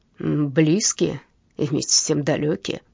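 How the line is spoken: Hoarse. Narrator (Russian): хрипло ответил Эммануэль Есперсон

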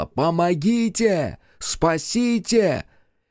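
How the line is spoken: Desperate screaming. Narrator (Russian): не найдя ничего лучше, она вновь закричала

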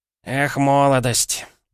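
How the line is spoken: Sighing. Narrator (Russian): вздохнул мой собеседник

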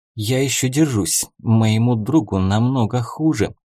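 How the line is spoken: Sighing. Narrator (Russian): вздохнула девушка

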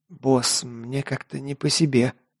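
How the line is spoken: Tense quiet whisper. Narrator (Russian): негромко прошептал Лок, напряженно осматриваясь по сторонам

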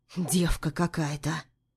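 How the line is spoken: Quiet whisper. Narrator (Russian): Шепчет тихо

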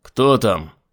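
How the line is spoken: Shouted while running. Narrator (Russian): крикнул Айзек, опрометью сбегая по лестнице

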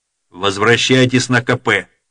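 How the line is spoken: Sharp commanding order. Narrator (Russian): резко приказал командующий

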